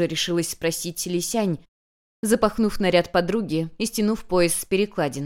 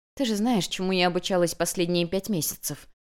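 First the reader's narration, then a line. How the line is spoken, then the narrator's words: Quiet, barely hidden provocation. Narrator (Russian): Тихо, но с плохо скрытой провокацией ответила ей Юнь-Юнь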